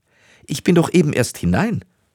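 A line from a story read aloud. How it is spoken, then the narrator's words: Young woman calling. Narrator (German): rief die junge Frau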